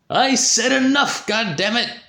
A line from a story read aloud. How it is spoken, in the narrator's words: shouted the professor